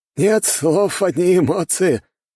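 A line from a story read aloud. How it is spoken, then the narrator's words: Roaring laughter. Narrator (Russian): расхохотался одноухий командир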